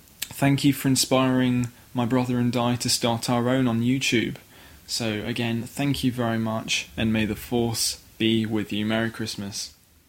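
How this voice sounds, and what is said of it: Non-American accent, mature refined speech. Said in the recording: “I could listen to somebody with an accent all day... maybe it's just the accent... your manner of speaking is just so mature and refined”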